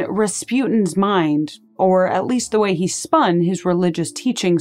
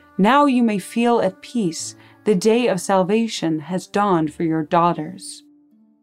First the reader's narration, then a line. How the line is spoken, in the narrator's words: he merely looked at her calmly and said